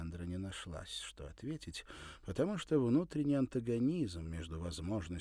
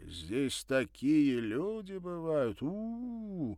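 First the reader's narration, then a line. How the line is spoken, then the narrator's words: Admiring, awed drawl. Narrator (Russian): восторженно-уважительно протянул он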